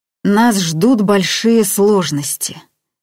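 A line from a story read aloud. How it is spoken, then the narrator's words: Forced out, strained. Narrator (Russian): выдавил он наконец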